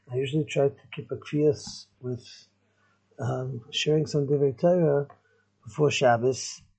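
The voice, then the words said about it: Weakened, not fully recovered voice. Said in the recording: “I didn't have a voice at all ... my voice is still not 100%”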